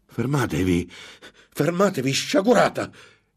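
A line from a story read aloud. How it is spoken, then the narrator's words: Exclamation. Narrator (Italian): esclamò Ambrosio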